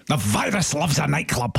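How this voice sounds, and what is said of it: Imitates another person's voice. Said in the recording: “I do an impersonation of him”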